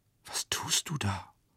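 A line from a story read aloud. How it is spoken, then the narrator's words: Repeated whisper. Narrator (German): flüsterte die Grusinskaja noch einmal, dass sie dabei lächelte mit ihrem erblassten und verzerrten Gesicht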